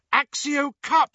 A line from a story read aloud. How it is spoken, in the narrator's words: cried Hermione, who had evidently forgotten, in her desperation